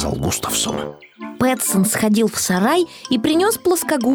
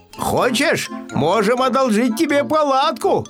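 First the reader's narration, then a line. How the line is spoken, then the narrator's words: Shout after someone. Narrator (Russian): крикнул Пэтсон вслед соседу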